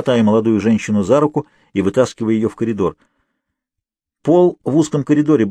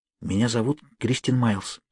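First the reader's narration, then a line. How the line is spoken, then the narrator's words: Hurried whisper. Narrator (Russian): торопливо прошептала Зеленоглазая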